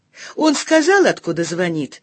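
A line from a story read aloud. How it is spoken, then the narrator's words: Irritated. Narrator (Russian): раздраженно спросила я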